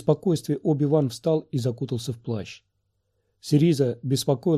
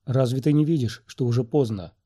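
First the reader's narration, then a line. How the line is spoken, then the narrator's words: Hopeless sigh. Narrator (Russian): безнадежно вздохнула она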